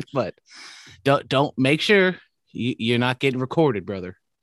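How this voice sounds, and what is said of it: Put-on Southern accent. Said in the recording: “I don't know why I'm doing a Southern accent and not a Hulk Hogan accent”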